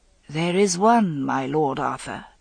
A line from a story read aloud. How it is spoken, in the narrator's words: said Vivian quietly